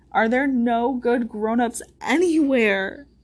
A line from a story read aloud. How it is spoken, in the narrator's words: she cried